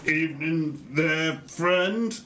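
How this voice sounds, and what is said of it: Put-on human character accent. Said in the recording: “He's going to do his best human accent again.”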